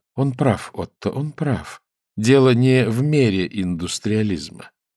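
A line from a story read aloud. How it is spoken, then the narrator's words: Gentle. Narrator (Russian): миссис Скорцени мягко заметила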